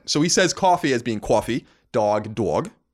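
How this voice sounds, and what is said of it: Exaggerated New York accent. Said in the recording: “a very distinct New York accent”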